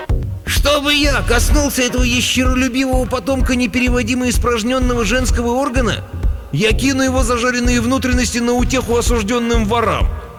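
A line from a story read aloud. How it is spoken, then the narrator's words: Fat prince squealing. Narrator (Russian): тучный принц в паланкине завизжал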